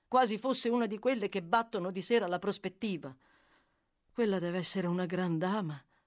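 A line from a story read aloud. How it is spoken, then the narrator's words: Sighing. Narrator (Italian): proseguì egli sospirando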